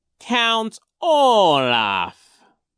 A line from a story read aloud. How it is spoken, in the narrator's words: Genghis said slowly